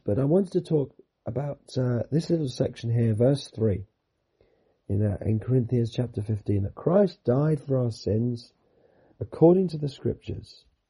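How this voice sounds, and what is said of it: Hoarse, failing voice. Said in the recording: “As I'm sure you can hear, most of you can hear, I'm losing my voice.”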